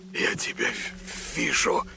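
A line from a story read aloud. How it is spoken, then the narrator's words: Disbelieving whisper. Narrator (Russian): прошептал не веря своим глазам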